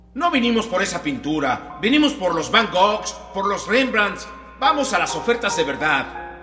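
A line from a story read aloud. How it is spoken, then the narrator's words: Angry male shout. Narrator (Spanish): Otra vez el hombre gritó con enojo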